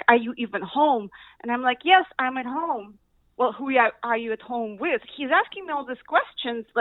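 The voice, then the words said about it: Speaks with a foreign accent. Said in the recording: “it's the accent ... It's perfectly understandable.”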